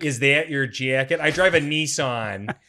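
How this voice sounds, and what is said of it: Put-on nasal Midwestern accent. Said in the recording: “like that nasally ... that's what you have to say to get into the Midwestern accent.”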